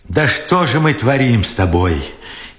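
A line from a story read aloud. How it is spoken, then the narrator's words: Furious tearful question. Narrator (Russian): яростно сквозь слезы спрашивал Бережной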